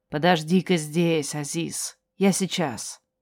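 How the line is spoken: Quiet. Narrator (Russian): тетя негромко сказала

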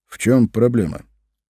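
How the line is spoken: Heavy sigh. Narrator (Russian): Тот тяжело вздохнул

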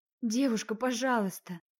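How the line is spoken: Trembling voice. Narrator (Russian): дрогнувшим голосом произнесла я

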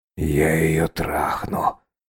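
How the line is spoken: Hoarse rasp. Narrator (Russian): прохрипел рядом Андрюха

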